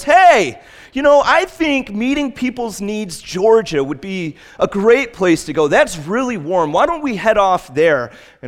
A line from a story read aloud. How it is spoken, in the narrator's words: a backseat driver in the back of the bus yells